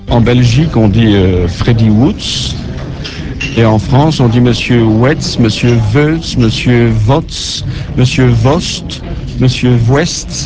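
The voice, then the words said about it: Belgian French accent. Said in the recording (French): “écrivain belge et français d'adoption ... son accent était plus fort ... j'ai gardé mon accent”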